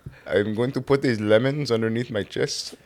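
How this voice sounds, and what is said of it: Put-on Indian accent. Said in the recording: “when we do accents and they sound bad ... Accent? That was terrible. ... No, that was good, dude. ... That was a good Indian.”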